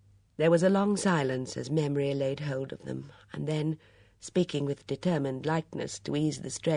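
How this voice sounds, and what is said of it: Usual voice. Nothing is said of it.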